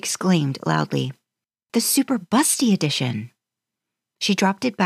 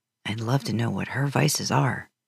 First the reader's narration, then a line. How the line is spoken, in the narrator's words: Dean said under his breath